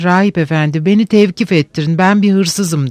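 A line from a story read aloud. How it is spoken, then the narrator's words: Plain. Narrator (Turkish): dedi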